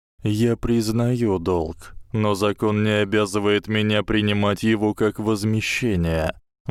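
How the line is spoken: Grim, smiling. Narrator (Russian): мрачно улыбнулся лорд Малфой

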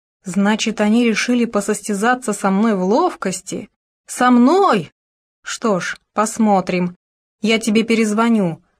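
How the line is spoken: Growling. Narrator (Russian): прорычал он

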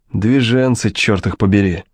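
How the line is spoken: Said angrily. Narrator (Russian): зло сказал он

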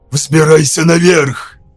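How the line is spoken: Hoarse, through clenched teeth. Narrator (Russian): прохрипел сквозь стиснутые зубы

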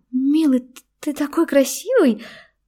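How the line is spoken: Incoherent babbling. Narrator (Russian): начала бессвязно лепетать Юля

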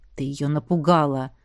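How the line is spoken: Grumbled. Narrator (Russian): проворчал Равьен

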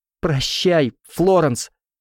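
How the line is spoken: Shouted through tears. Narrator (Russian): Виена прокричала сквозь слезы

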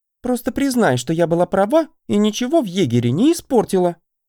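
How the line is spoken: Offended sulking. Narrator (Russian): обиженно нахохлила Ланила

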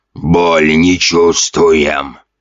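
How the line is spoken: Hoarse zombie rasp. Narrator (Russian): прохрипел один из зомби

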